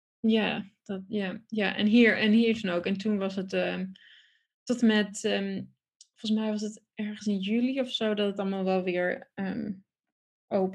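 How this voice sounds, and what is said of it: Dutch spoken with English accent. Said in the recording (Dutch): “je echt wel een, een, een Engels accent hebt”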